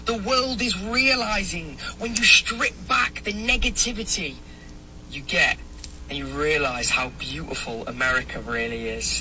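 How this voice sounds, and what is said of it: European accent. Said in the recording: “that's a European guy. ... I could tell by his accent.”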